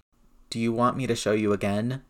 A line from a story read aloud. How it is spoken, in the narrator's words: Peter asked wearily